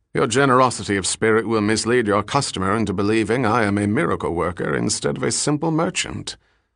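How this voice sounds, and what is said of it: Aristocratic English drawl. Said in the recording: “Riker spoke with an English accent similar to Abington Westlake's aristocratic drawl”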